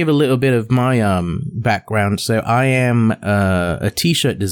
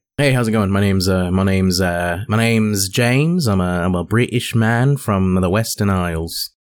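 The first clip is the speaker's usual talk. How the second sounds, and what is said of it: Put-on American accent. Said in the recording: “Why'd you start speaking with an American accent?”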